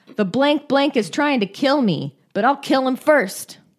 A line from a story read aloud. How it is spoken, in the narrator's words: Broom ... exclaimed